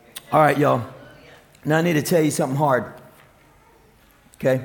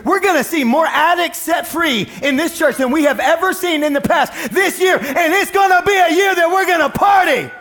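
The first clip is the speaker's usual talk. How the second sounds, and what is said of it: Screaming, loud preaching voice. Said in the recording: “I don't know why I'm screaming at y'all.”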